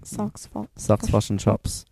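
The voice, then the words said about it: Mock New Zealand accent. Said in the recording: “your accent is really getting to New Zealand”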